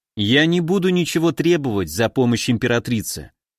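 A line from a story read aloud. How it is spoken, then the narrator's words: Calm. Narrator (Russian): спокойно сказал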